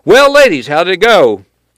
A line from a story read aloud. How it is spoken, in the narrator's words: said loudly